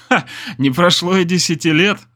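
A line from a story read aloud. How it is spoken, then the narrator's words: Laugh then sigh. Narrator (Russian): рассмеялся я, а потом вздохнул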